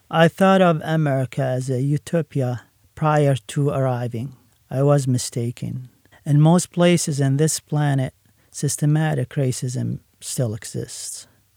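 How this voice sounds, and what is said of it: Middle Eastern accent. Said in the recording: “I have a Middle Eastern accent.”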